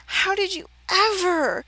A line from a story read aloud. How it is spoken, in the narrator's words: he rasped